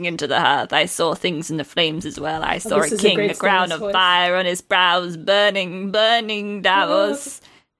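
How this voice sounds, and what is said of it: Aged, theatrical Shakespearean character voice. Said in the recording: “Great voice. ... I love the Shakespearean accent. ... I like how you age. ... Like 40 years. ... You gave him the fucking emperor voice from Star Wars.”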